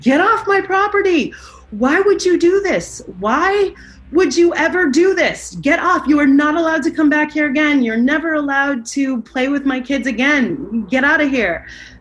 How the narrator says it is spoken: she started screaming

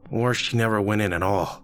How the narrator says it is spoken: Rick sighed

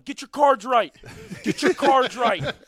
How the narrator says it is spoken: yelling

